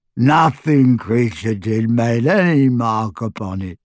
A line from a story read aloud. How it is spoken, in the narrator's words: moaned the elf